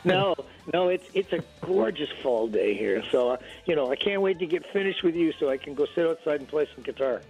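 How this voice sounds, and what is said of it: Slightly nasal voice. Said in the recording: “I've just gotten getting over a cold. So, you know, if you can hear in my voice that I'm a little nasally”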